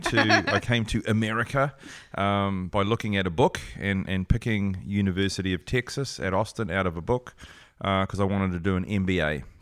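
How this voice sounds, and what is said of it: New Zealand accent. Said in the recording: “originally from New Zealand. ... And that's where the accent is from. ... it's lovely, by the way.”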